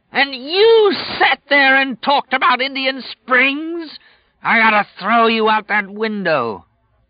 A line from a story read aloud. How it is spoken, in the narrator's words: Flagg screamed